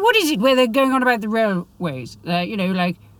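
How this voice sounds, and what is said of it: Usual voice. Nothing is said of it.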